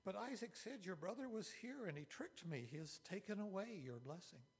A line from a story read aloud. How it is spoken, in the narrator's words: Esau exclaimed